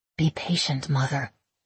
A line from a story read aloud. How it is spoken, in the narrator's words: I murmur